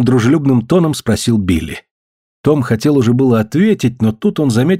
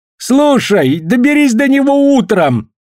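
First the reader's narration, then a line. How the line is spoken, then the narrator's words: Shouting. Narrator (Russian): крикнул Джефф Хмель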